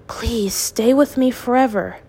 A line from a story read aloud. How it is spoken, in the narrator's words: he whispered